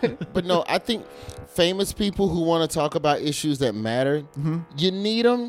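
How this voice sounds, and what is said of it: Usual voice. Nothing is said of it.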